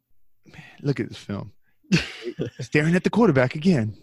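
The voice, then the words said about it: Impression with Southern accent. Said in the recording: “do a Marcus impression ... the Southern accent”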